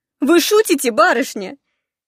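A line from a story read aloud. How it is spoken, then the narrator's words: Laughing. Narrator (Russian): смеясь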